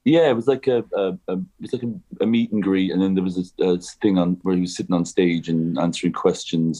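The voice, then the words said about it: Irish Cork accent. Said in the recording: “Cork people ... that's the long explanation as to why my accent is like this”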